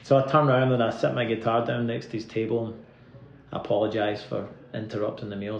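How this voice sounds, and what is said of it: Scottish accent. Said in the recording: “I'm from the West Coast in Scotland. ... yeah, I can hear your accent.”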